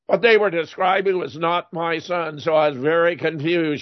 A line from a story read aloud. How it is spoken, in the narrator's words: she said